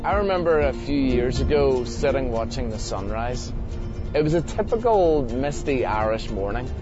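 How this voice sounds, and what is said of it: Strong, hard-to-follow accent. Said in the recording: “I hope you can understand my husband's very accent. But we probably should have put subtitles on it.”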